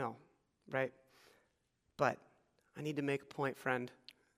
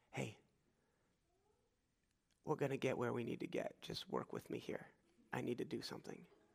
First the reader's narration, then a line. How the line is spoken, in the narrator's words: Jesus brings this guy close and maybe, just maybe, whispers in his ear